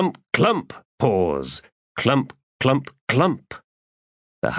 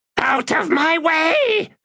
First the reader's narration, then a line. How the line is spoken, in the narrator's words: screeched Iskaral past